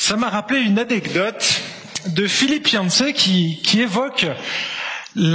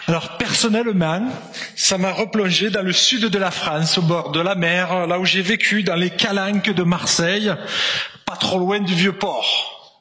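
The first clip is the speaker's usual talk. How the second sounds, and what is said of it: Put-on Provençal French accent. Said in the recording (French): “un petit accent provençal ... je vais reprendre mon accent normal”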